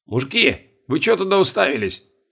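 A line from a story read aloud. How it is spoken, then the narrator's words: Cheerful question. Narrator (Russian): весело спросил Петр Иванович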